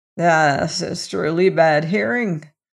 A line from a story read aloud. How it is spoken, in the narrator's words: croaked the witch